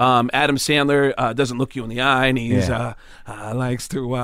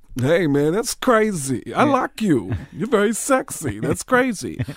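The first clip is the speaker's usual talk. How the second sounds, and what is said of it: Tracy Morgan impression. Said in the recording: “Like Tracy Morgan kind of looks spacing and just”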